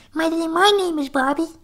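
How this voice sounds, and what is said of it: Bobby character voice. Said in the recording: “his Bobby voice ... change his voice completely ... You know, kind of voice.”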